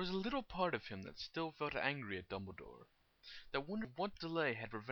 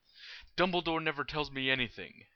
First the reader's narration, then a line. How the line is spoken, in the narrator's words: Harry spat, and found it easy to say so with feeling